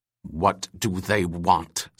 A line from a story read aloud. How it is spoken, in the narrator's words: snarled Venus